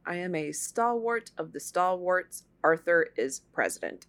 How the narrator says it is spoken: Guiteau calmly told them

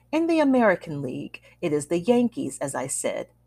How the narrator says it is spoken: the old man said happily

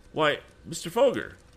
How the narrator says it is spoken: exclaimed Tom

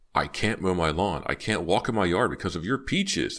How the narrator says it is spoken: the neighbor screamed

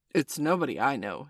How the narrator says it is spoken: said, exclaiming it carefully

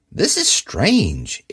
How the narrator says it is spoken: exclaimed Dorothy

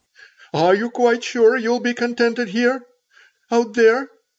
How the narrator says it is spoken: said Old Man Shaw falteringly

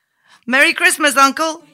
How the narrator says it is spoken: Suddenly, a cheerful voice cried

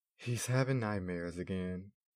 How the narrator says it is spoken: Mama sighed

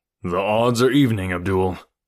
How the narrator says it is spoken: said Tarzan with a low laugh

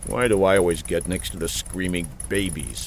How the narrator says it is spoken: Buck muttered

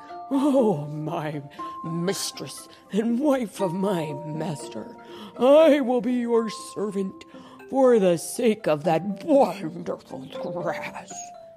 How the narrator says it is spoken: breathed on the woman's feet and said

